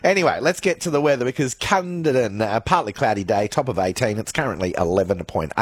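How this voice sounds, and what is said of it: Hoarse, crackling, failing voice. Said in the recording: “I'm losing my voice, it seems like. And it just it's like I'm crackling at certain points. It just goes.”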